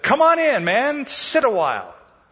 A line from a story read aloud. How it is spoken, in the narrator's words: the spider cried out and said